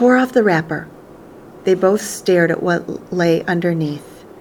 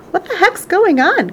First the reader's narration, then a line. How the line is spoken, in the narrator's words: cried Grandma Josephine, waking up suddenly